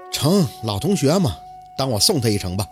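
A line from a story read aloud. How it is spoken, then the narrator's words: Sighing. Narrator (Chinese): 宝四……叹了口气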